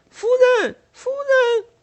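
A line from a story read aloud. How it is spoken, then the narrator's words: Calling out. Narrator (Chinese): 贝蒂叫道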